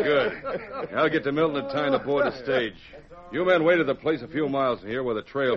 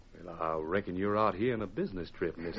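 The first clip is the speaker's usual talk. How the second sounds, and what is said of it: Put-on Western drawl. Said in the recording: “change my voice using a drawl. Sort of like this.”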